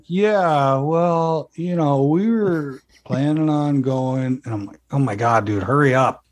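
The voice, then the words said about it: Put-on Los Angeles accent. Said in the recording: “Luckily, I don't have that native LA accent,”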